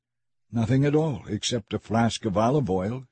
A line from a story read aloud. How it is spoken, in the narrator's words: she replied